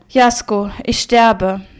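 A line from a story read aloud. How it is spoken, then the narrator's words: Sigh. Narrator (German): seufzte sie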